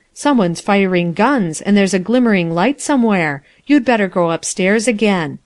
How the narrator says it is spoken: he exclaimed presently

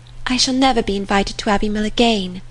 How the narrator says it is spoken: was said in a rather sorrowful tone

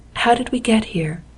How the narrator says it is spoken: he said quietly

